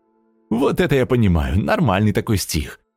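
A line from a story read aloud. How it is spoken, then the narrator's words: Giggling. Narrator (Russian): Хихикнула Сонечка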